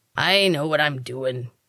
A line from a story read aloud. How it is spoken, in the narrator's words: the man grumbled